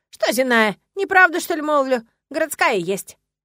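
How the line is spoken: Old woman's indignant snort. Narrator (Russian): Старушка возмущенно хмыкнула

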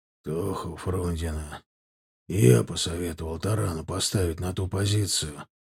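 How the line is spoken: Hoarse, altered voice. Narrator (Russian): хрипловатым, изменившимся голосом сказал Черепанов

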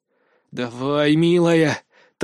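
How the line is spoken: Hoarse whisper. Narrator (Russian): также хрипло прошептал я

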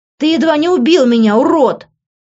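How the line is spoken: Shouting. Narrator (Russian): закричала

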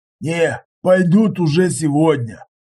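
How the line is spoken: Wheezy rasp. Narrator (Russian): просипел

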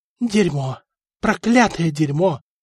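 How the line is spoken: Whispered. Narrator (Russian): шептал Стефан

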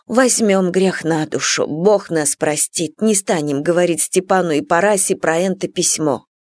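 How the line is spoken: Whispered. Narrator (Russian): зашептала

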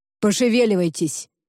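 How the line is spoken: Barked by chilled man. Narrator (Russian): рявкнул мне, успевший продрогнуть бородач

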